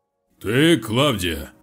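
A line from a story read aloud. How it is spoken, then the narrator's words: Deep guttural bass. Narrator (Russian): Утробным басом донеслось от костра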